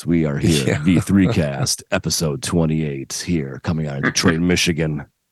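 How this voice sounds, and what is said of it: Deep radio announcer voice. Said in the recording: “Do that real deep voice you did a second ago. ... my radio voice”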